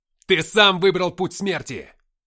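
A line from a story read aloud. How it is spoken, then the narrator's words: Furious spitting shout. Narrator (Russian): крикнул я в лицо, брызгая слюной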